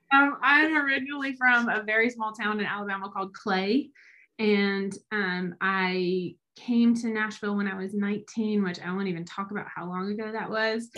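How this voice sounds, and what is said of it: Southern US accent. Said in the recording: “this metropolitan accent is not from Nashville”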